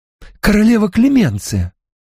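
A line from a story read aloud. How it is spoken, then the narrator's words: Exclaiming. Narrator (Russian): воскликнул Гуччо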